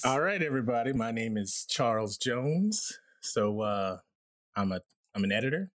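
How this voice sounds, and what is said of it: Cool, deep voice. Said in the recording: “a very cool, deep voice”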